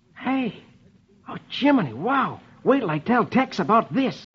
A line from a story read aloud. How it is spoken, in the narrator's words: Rusty exclaims